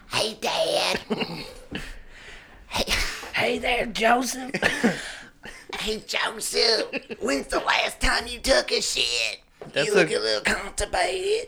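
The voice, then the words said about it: Impression of Bobby's voice. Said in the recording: “Do your Bobby. ... That's a girl that does his voice.”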